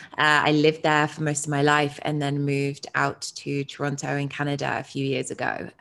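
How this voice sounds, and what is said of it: British accent. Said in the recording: “as you may be able to tell from the accent, I'm from the UK.”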